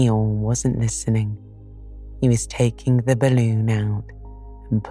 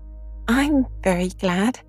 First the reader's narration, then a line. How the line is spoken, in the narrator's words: said Piglet happily